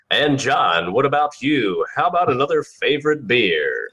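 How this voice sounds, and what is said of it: Announcer-style radio voice. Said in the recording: “Let me get my radio voice going here so I can, you know, bring this up properly.”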